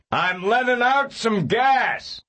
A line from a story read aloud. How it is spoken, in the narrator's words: he shouted to Seraphina Pekela